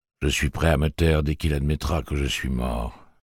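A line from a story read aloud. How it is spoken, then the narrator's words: Sullen voice. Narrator (French): dit la première voix d'un ton maussade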